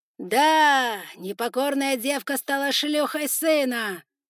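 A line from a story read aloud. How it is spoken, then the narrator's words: Loud, flat statement. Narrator (Russian): Громким голосом констатировал факт главный повелитель пауков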